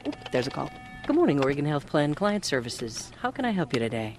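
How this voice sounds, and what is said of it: Smooth radio announcer voice. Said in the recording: “her smooth radio voice”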